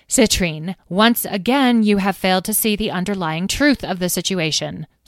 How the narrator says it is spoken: snapped Carnelian

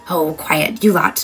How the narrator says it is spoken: Nora hissed

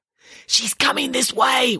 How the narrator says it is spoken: whispered Nanny Piggins

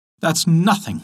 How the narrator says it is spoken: laughed the artichoke

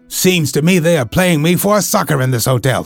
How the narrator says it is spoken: he cried

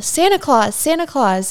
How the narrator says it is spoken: She yelled

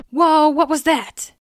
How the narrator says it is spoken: Eric cried in astonishment

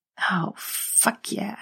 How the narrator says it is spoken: muttered

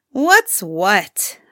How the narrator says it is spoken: snarled Suyatar

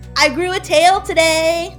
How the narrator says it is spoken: he'll shout

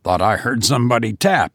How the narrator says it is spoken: he said, with a shamefaced laugh

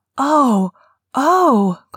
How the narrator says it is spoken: Colin cried out in delight

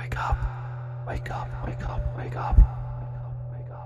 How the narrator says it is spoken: whispered

